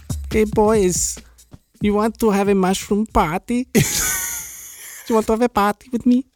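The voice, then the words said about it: Put-on comedic accent. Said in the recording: “You try to do the accent or whatever? ... it's like the touch my monkey”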